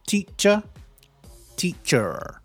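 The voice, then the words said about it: Attempted American accent. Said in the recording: “I can't do an American accent. My American accent is terrible. ... Very sexy, no? Maybe I prefer an American accent”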